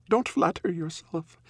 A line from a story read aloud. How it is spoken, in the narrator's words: laughs